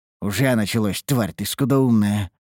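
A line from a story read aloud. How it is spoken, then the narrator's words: Muttering to oneself. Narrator (Russian): буркнул я про себя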